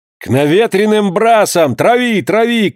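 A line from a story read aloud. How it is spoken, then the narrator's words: Shouting. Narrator (Russian): кричал молодой капитан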